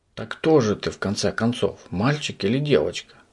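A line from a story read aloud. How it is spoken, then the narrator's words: Whispered in ear. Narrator (Russian): зашептал ему на ухо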